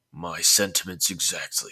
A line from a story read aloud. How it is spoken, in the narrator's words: Satoshi replied coolly in an even manner